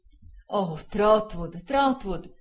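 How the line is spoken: Anguished exclaiming. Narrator (Italian): esclamò il signor Wickfield, torcendosi le mani

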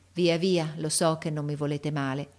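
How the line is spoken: Sighing. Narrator (Italian): e mise un sospiro

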